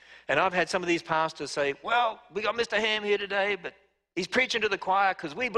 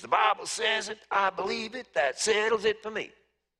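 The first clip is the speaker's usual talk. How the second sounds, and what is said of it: Put-on American southern accent. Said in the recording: “It's my southern accent.”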